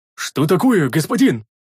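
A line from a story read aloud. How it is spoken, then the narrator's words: Alarmed shout, big man. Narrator (Russian): Встревоженно крикнул здоровяк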